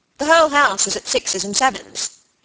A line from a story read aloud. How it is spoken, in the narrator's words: he said crossly